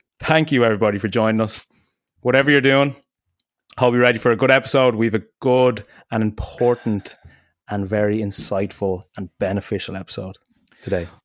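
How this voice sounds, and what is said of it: Hoarse voice. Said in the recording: “my voice is really hoarse today, and I'm I'm expecting a few voice cracks”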